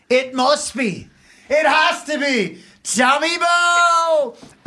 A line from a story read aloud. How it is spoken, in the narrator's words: I couldn't help myself but scream